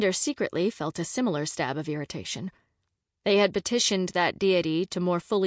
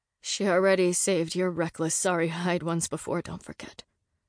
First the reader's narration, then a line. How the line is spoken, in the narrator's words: Rhea reminded Zev grimly